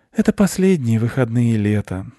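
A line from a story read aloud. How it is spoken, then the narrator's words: Mother sighing. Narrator (Russian): вздохнула мама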